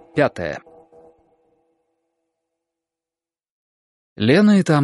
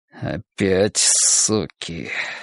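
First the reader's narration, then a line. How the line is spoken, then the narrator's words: Breathed through clenched teeth. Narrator (Russian): сквозь зубы выдохнул Николай Степанович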